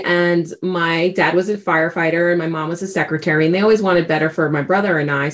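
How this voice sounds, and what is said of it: Slight New York accent. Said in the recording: “every once in a while, you'll definitely hear a little New York accent going in there ... still haven't lost some of that accent”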